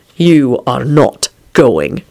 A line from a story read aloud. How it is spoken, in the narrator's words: Quentin growled